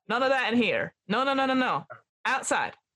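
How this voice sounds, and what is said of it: Put-on American accent. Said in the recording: “Oh, sorry, American accent.”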